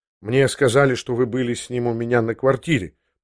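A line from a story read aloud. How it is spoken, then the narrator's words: Embarrassed mutter. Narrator (Russian): пробормотал я в смущении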